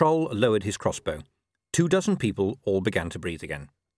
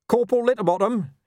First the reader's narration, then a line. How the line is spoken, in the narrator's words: yelled to cover his confusion